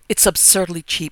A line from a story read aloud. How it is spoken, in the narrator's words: exclaimed my sister-in-law complacently